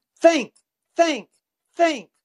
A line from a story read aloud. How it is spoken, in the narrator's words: the instructor was yelling